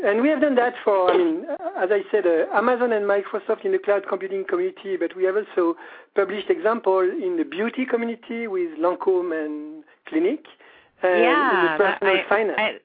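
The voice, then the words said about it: French accent. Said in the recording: “Better than my accent, you figured out that I was French”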